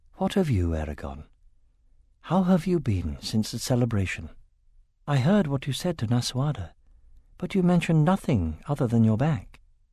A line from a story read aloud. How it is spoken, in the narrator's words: in an even gentler voice, Arya asked